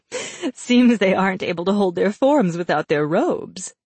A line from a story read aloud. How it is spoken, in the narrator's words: Gale said, chuckling